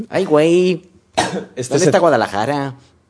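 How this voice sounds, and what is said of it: Put-on Mexican Spanish accent. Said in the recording (Spanish): “intenté hacer el acento mexicano, me salía argentino ... Mira, me ha salido bien.”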